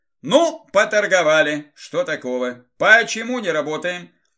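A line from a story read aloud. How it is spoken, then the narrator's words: Cheerful loud question. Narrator (Russian): Задал вопрос изрядно повеселевший Игорь, обращаясь громко ко всем праздно шатающимся вокруг парням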